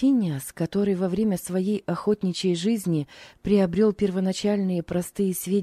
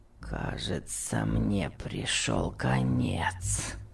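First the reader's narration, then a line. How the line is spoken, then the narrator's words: Groaning. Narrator (Russian): простонал Том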